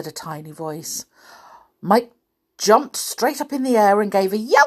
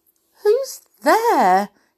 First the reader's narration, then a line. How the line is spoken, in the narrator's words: he asked nervously